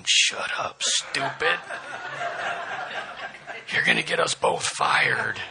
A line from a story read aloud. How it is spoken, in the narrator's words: the lion said in an undertone